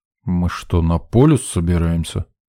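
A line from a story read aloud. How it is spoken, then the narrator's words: Displeased interruption. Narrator (Russian): Недовольным тоном перебил меня Сидор Кузьмич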